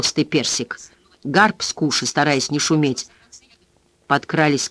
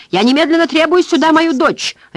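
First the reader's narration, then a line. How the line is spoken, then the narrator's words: Barked. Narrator (Russian): рявкнул Стюарт Перси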